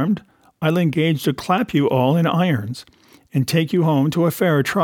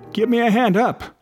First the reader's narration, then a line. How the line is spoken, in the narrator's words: he cried